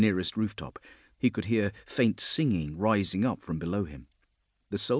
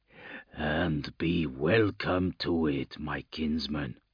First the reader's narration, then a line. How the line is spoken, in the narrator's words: he growled softly